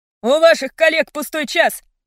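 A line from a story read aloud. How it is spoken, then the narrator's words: Barking shout. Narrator (Russian): рявкнул физрук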